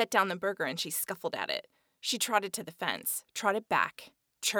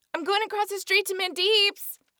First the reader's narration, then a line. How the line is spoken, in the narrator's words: I shouted into the living room